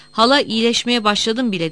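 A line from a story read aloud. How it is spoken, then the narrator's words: Low, awed voice. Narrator (Turkish): dedi alçak ve huşu dolu bir sesle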